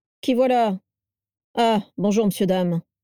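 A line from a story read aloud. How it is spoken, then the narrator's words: Gruff, gravelly male voice. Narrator (French): grogna l'homme avec une voix rocailleuse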